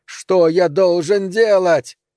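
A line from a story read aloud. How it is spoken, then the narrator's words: Shouting at full force. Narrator (Russian): изо всех сил крикнул я во второй раз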